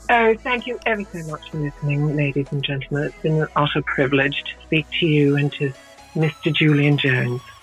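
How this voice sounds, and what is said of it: Put-on English accent. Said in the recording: “now do you want to do an English version?”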